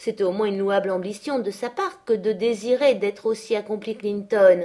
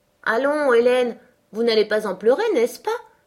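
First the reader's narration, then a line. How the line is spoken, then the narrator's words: Surprised exclamation. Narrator (French): s'écria-t-elle, surprise de mon ton sérieux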